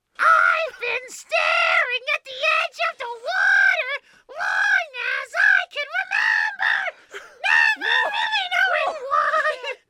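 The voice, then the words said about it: Singing in a croaky toad voice. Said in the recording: “sung in a toad voice ... a very, very good impression of How Far I'll Toad”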